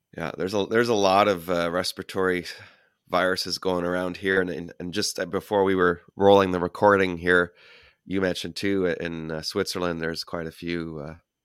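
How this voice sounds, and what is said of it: Nasal, congested voice from illness. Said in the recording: “I sound horrible. It's because I no longer feel horrible. I've been sick for a few days, feeling much better, but sound much worse ... that nasally sound ... talking like through your nose”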